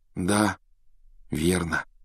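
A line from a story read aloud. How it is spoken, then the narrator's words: Sigh. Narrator (Russian): вздохнул Гарри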